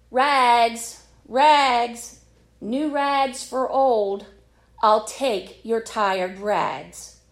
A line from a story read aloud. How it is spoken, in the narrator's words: he was calling out in a clear, powerful voice